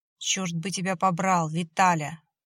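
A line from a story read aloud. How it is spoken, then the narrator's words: Grumbling. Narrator (Russian): проворчал Борис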